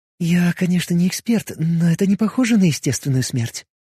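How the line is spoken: Whisper. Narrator (Russian): прошептала Алиса

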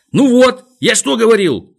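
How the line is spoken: Shout. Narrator (Russian): закричал он

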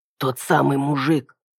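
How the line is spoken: Whisper. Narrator (Russian): шепнул он

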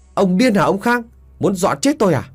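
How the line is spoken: Angry yelling. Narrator (Vietnamese): Tôi giận dữ gào lên

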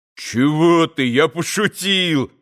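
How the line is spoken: Sudden cry. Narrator (Russian): вскрикнул Митя

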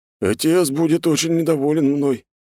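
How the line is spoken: Sad exhale. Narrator (Russian): печально выдохнул он

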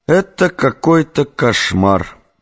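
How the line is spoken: Muttered. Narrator (Russian): пробормотал Эдгар

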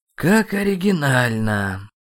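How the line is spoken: Weary pronouncement. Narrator (Russian): устало изрек Ирамю

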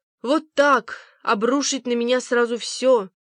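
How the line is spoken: Moaning. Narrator (Russian): стонала Пег, лежа в темноте своей спальни с надушенным платком на лбу

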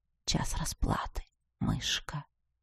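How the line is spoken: Whispered. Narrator (Russian): шепнул мой светлоглазый кот

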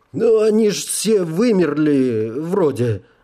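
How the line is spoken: Uncertain. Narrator (Russian): добавил он неуверенно

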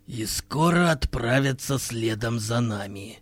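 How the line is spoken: Gloomy remark. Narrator (Russian): мрачно заметил Хирилак

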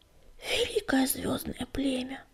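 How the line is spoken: Whispered. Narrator (Russian): прошептал он

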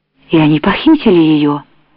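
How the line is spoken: Sudden exclamation. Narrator (Russian): внезапно воскликнул Сбышка

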